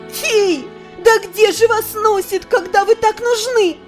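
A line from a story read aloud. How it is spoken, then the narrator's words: Shouting skyward. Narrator (Russian): Выкрикнула я в небо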